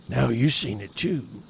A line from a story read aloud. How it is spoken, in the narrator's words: wheezed